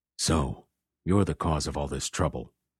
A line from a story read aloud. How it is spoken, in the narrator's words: whispered Cross